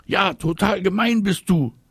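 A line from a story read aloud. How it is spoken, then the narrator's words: Screaming. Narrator (German): schreit Marie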